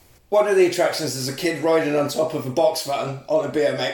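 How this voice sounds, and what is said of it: Usual voice. Nothing is said of it.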